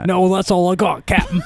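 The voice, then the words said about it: Put-on old-timey Cockney accent. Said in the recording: “old timey ... My Cockney accent.”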